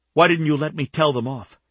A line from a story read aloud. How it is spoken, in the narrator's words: Fury made her voice tremble